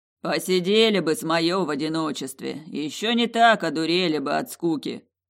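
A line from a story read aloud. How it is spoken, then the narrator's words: Grumbling. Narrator (Russian): пробурчало оно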